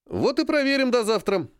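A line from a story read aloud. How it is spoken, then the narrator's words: Brisk, cheerful. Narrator (Russian): бодро ввернул Серый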